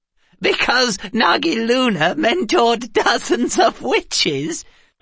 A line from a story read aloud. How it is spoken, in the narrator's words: Orna asked through her giggles